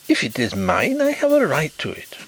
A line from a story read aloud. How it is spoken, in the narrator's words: he exclaimed